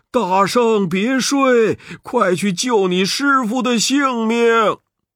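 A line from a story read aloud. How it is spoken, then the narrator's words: Sudden call. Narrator (Chinese): 猛听有人叫道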